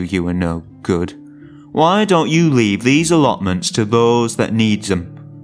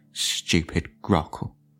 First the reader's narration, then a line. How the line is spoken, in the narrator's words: under his breath